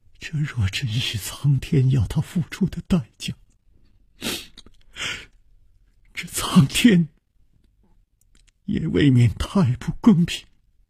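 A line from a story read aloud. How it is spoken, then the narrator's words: Trembling voice. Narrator (Chinese): 秋灵素颤声说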